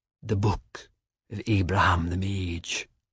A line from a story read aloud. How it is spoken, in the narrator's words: she whispered